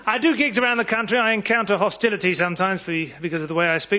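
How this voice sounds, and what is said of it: Educated, posh-sounding accent. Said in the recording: “my accent is rather exotic to some of your ears... it is in fact educated”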